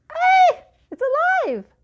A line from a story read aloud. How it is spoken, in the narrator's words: The lady screamed